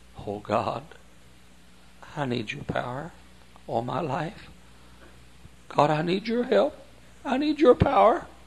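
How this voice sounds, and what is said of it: Whispering earnestly. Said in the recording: “I can be just as earnest when I'm whispering”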